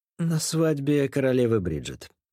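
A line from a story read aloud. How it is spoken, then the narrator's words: Calm. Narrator (Russian): спокойно ответил я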